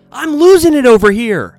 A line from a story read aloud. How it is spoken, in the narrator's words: Belk screamed